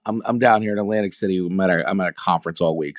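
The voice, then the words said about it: Slightly rough voice. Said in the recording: “I sound a little rough.”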